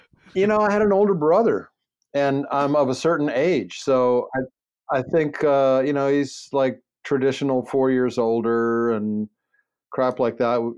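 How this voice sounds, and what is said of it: Baltimore accent. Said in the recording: “I just heard the accent... how bad uh, a Baltimore accent you have”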